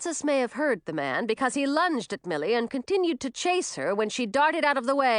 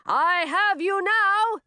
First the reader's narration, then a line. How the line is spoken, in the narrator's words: shouted as they ran